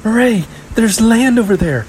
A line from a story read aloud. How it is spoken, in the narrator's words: the elder cried, trying to steady herself against the pitching boat